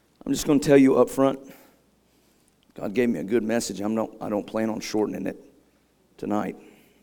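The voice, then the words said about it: Strained, worn-out voice. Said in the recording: “my voice is struggling”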